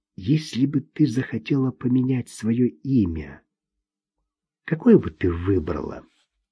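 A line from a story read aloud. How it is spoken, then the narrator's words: Barely audible whisper. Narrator (Russian): Чуть слышно он прошептал ей в ухо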